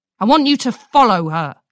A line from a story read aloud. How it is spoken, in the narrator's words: she snapped, now out of Twilight's earshot